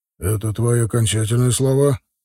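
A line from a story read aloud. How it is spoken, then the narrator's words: Calm question. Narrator (Russian): спокойно спросил Вида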